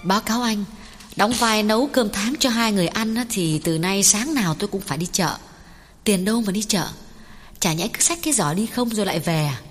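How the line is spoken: Smiling. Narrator (Vietnamese): Cô mỉm cười nhìn Lê Tiến nói

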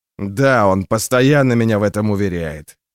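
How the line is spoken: Snort. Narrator (Russian): хмыкнул Стур

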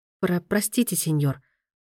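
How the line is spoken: Stammering mutter. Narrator (Russian): пробормотала она, заикаясь

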